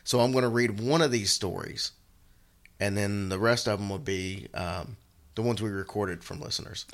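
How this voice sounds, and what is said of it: Worn-out, strained voice. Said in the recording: “my voice is a little bit shot”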